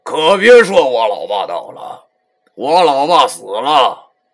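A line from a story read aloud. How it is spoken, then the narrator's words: Bitter, wry. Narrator (Chinese): 老 苦涩的又笑了一下，对我说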